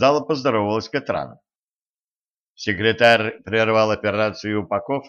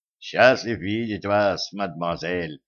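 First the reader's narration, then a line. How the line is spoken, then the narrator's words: Muttering. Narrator (Russian): пробормотал он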